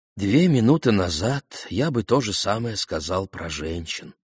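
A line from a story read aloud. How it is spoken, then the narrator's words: Sighing. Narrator (Russian): вздохнул Рубен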